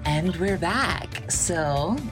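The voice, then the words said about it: Mocking impression of host's sign-on. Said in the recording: “making fun of how I guess, talk on this podcast and say how I say we are back ... Do you want to do impersonation?”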